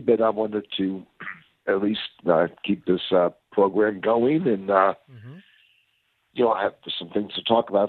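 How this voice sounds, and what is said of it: Scratchy, sick-sounding voice. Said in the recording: “I got a little bit of the crud, and my voice is a bit scratchy”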